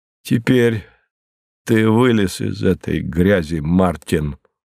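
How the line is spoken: Solemn self-talk. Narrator (Russian): торжественно сказал он себе

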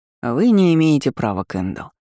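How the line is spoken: Displeased voice. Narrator (Russian): недовольным голосом заявил герцогу

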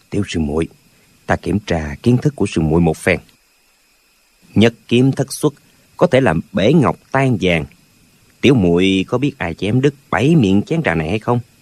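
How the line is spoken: Soft, old man. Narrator (Vietnamese): Lão già nói khẽ

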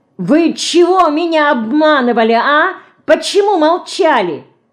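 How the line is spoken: Playful menacing shout, mouse. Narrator (Russian): расшалилась вдруг мышка и ... грозно закричала

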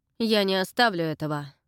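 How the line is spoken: Rough, harsh. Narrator (Russian): грубо сказал индеец

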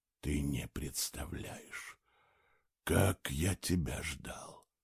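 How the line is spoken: Whispered. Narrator (Russian): шепотом добавил он

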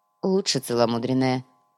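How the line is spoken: Grumble. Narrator (Russian): проворчал Хван

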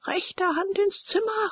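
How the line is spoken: Called out. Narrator (German): rief der Major

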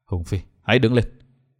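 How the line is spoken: Sighing, low deep voice. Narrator (Vietnamese): Vân Thiên Nhạc thở dài trầm giọng, hạ giọng nói

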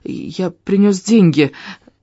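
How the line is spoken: Frightened. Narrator (Russian): испуганно сказал я

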